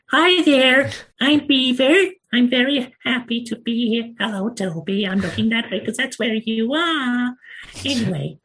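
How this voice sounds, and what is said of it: Puppet character, poor American accent. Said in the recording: “a beaver puppet ... my dreadful American accent”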